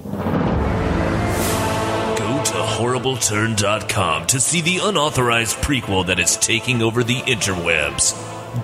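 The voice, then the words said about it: Dramatic movie trailer announcer voice. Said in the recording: “do the movie voice thing”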